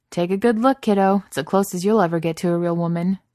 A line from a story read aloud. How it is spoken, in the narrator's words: shouts back